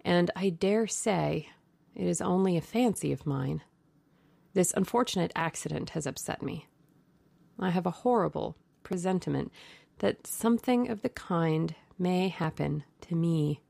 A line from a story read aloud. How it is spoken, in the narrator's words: he answered sadly